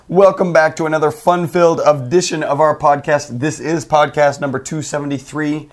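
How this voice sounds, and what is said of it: Hoarse, froggy voice. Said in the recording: “my voice is a little different ... Froggy ... not as painful as it sounds ... it does sound painful”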